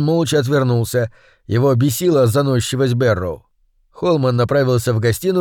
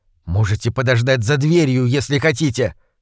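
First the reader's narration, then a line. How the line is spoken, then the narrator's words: Irritated hiss. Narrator (Russian): прошипел в ответ раздраженный Холман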